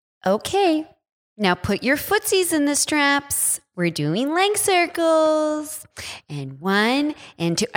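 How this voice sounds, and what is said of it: Imitated baby voice. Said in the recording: “the instructor talked in baby voice ... Do her voice.”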